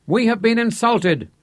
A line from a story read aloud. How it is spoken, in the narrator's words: called out loudly